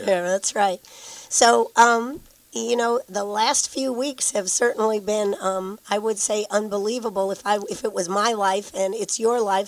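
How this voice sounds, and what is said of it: Voice sounds unwell and rough. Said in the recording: “you sound terrible”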